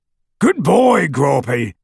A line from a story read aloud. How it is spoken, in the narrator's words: he bellowed through the hole in the window